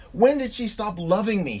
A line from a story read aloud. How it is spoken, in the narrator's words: He blurted out